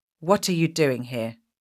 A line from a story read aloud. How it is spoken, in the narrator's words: she asked